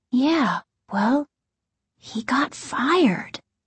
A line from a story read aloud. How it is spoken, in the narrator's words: Margaret said, half whispering in case their dad might be able to hear